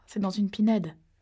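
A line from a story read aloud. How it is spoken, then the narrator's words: Plain. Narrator (French): répondit Kimberly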